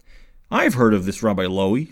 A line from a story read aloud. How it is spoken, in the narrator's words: said the captain